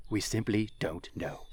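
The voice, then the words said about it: David Attenborough impression. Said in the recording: “I will quote David Attenborough. ... such a good impersonation.”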